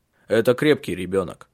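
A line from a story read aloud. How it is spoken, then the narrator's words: Strange harsh voice. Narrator (Russian): произнес он своим странным резким голосом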